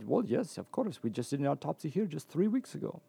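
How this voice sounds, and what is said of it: Put-on foreign accent, quoting someone. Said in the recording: “Pardon my... I'll stop the accent, save everyone the embarrassment.”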